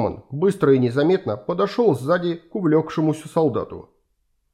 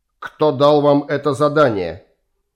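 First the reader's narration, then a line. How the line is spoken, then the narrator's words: Icy, strained question. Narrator (Russian): Ледяным тоном спросил он, с трудом выговаривая слова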